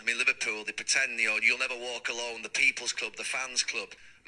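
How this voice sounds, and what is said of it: Manchester English accent. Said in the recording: “That's a great accent. ... He's from Manchester. It's a great accent.”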